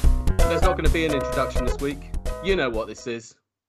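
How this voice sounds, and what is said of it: West Country English accent. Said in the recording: “all with a West Country accent, my lover”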